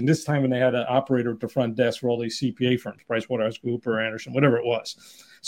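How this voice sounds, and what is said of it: New York accent. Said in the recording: “I am my accent. I grew up in New York area, New York City area, but living in Southern California, my voice eh, probably still unique”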